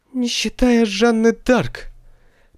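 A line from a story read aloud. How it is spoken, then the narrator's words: Hoarse rasp. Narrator (Russian): прохрипела баронесса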